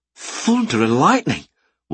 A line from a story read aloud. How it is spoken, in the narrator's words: one rider exclaimed